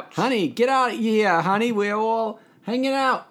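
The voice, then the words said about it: Put-on New York accent. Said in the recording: “That's my New York accent again”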